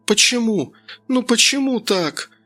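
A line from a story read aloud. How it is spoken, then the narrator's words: Through sobs. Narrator (Russian): Сквозь рыдание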